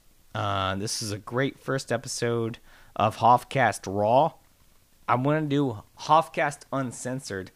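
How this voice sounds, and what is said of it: Slightly hoarse voice. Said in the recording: “I'm a bit hoarse.”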